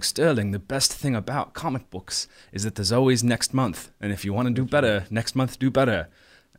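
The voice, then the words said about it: Bad British-accented impression of another person. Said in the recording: “he's British, so yeah, this is my terrible James impression ... I'm sorry, James, for that impression.”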